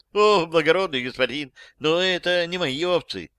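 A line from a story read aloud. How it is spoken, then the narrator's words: Old man pleading. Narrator (Russian): взмолился старик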